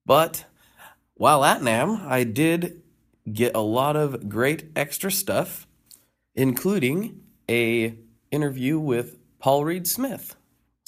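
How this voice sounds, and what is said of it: Congested, stuffy-nosed voice. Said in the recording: “I have contracted the legendary Namthrax. Yes, I have a cold. I'm very plugged.”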